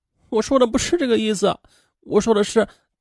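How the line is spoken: Crying. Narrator (Chinese): 王娜还是哭

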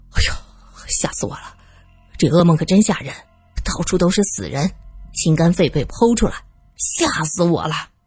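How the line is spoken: Low, shaken. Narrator (Chinese): 旺堆 低声说

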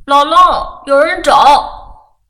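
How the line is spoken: Child shouting loudly, repeatedly. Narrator (Chinese): 其中一个小孩子便向着屋里高声喊了好几声

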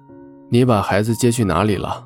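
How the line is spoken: Icy cold voice. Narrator (Chinese): 周伯言……声音冷得像冰

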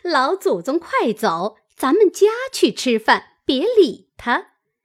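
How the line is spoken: Laughing. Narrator (Chinese): 凤姐儿……笑道

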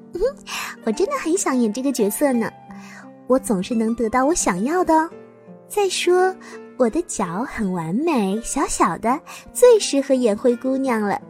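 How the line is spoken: Sweet, smiling. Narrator (Chinese): 罗拉露出了甜美的笑容，对贝琳达说

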